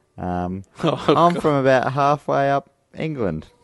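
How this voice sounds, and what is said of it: Put-on Leeds accent. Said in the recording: “Can you do a Leeds accent? ... Very good.”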